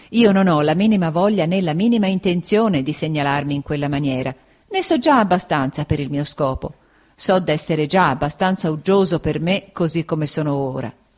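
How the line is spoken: Laughing. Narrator (Italian): disse Steerforth ridendo

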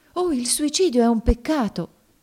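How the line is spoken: Frightened exclamation. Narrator (Italian): esclamò spaventata Emmelina

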